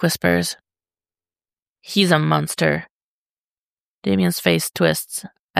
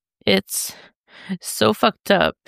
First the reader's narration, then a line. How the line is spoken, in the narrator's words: Damien sobs